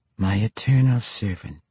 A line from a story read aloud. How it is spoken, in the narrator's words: the avatar said, gently